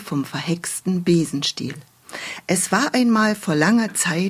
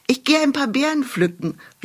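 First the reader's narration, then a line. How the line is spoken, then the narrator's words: Called out. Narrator (German): rief sie ihrer Mutter zu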